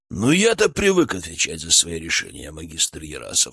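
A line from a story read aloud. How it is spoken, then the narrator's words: Calm, almost indifferent. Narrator (Russian): спокойно, почти равнодушно ответил Шаповалов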